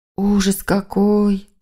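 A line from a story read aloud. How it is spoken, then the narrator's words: Moaning. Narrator (Russian): простонала племянница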